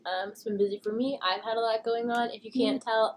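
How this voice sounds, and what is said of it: Congested voice from a cold. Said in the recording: “I have a cold. ... I'm getting over my cold.”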